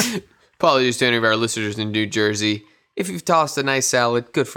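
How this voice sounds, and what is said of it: Usual voice. Nothing is said of it.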